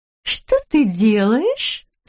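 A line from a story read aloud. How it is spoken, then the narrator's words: Ingratiating, insinuating tone. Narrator (Russian): спросила она вкрадчиво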